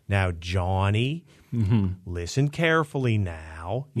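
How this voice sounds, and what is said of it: Soft Pittsburgh accent, Mr. Rogers style. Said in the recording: “people that imitate the accent tend to go hard with it. But there is the kind of softer touch that people like Mr. Rogers, Fred Rogers had ... the Pittsburgh accent ... the things that you're doing there is that O from the back”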